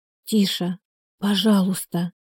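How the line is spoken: Pleading whisper. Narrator (Russian): шепотом она молила

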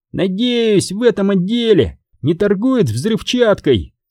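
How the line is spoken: Shouted. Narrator (Russian): крикнул Пак

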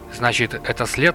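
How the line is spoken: Sighing. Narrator (Russian): Лотар вздохнул

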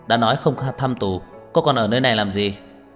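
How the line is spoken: Cold question. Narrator (Vietnamese): Cảnh sát gác lạnh lùng hỏi

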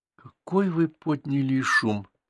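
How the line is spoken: Quiet. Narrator (Russian): тихо сказала она

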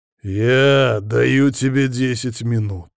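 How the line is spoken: Growled into the ear. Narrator (Russian): прорычал я ему на ухо

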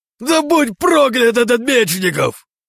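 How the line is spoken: Roaring in despair. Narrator (Russian): Взревел

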